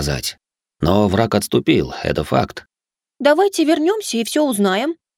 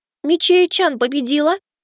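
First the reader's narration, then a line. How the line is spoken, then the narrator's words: Squeak. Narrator (Russian): пискнула Кицунэ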